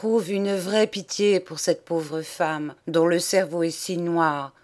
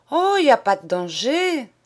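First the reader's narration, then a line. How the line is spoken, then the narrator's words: Exclaimed. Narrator (French): s'écrie-t-elle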